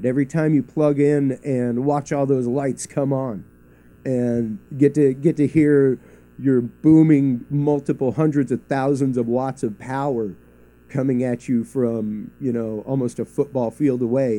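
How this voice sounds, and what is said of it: Thrilled, excited voice. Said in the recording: “you can probably tell in my voice, there's a little thrill. There's a little excitement.”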